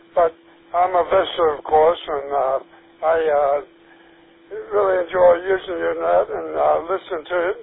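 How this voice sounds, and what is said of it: Hoarse voice. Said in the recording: “I'm real hoarse tonight. Can't talk. I took some medicine. I think that sort of burned my throat. My speech is a little bit off.”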